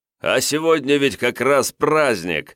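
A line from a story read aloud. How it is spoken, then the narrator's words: Merry laughter. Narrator (Russian): Весело расхохотался князь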